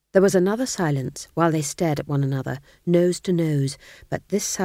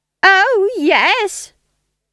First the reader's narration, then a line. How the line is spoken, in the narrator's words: shrieked Nanny